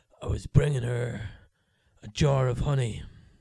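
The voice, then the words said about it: Jason Statham impression, Cockney voice. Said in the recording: “your Jason Statham impression ... stereotypical Cockney”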